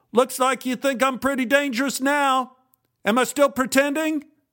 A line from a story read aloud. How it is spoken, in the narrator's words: Jim stopped and yelled